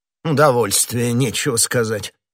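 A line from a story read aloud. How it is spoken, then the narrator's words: Grumbling. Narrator (Russian): пробурчал король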